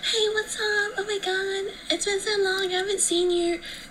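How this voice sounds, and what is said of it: Really high-pitched character voice. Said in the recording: “I'll just be like a really high-pitched voice”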